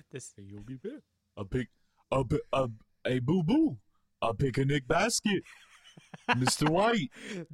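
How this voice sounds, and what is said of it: Cartoon bear character voice. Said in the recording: “do an impression of Yogi Bear saying bitch. ... Do an impression of Yogi Bear doing a Jesse Pinkman impression.”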